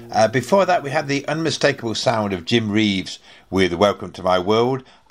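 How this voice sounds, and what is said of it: Hoarse, croaky voice. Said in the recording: “You can tell I've got a frog in my throat”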